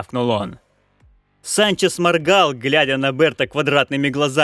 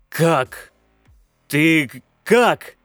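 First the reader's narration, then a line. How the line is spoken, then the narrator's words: Strained, forced out. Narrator (Russian): только и сумел он выдавить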